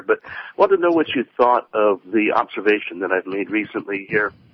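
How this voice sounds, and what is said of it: Congested, stuffy-sounding voice. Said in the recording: “Bear with me. I've got a cold here.”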